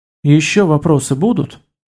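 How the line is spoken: Calm. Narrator (Russian): спокойно проговорил он

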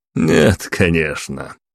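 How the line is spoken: Spy's dismissive snort. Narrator (Russian): хмыкнул шпион

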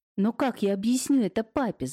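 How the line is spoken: Shouting. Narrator (Russian): закричала Наталья

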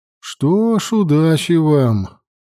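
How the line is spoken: Sighing. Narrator (Russian): вздохнула Гамула

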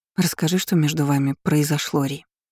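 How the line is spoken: Quiet gentle request. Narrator (Russian): тихо попросила подруга

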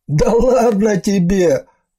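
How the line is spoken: Chuckling. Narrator (Russian): хохотнул он

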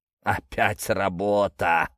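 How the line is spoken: Tired exhale. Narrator (Russian): устало выдохнул рогатый

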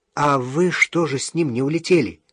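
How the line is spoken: Plain. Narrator (Russian): спросил я

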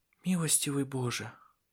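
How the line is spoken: Female whisper. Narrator (Russian): прошептала Сесилия

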